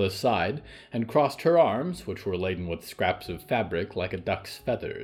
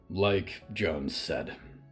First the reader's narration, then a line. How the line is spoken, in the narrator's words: Hector sighed